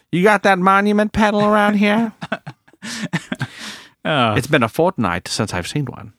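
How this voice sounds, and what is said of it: Put-on old-time gangster accent. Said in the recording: “old, dry, old gangster? ... a different accent?”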